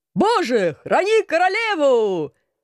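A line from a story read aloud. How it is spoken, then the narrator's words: Enthusiastic guards roaring. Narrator (Russian): Воодушевленно взревели гвардейцы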